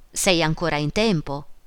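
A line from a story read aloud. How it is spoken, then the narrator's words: Man exclaiming. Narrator (Italian): esclamò lui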